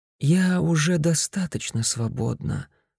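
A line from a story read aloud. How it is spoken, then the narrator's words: Sleepy. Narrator (Russian): сонно ответила Мадлен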